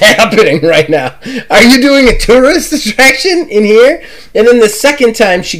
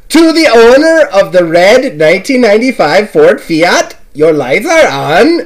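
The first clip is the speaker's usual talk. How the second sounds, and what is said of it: Poor put-on German accent. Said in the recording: “I apologize for my German accent. It's terrible.”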